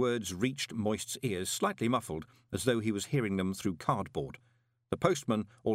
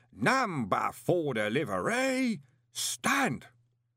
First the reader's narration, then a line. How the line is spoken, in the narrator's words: took a deep breath before roaring